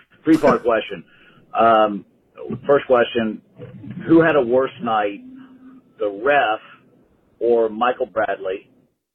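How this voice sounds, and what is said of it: Hoarse, strained voice. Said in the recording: “my voice is shot after yelling at that ref all night”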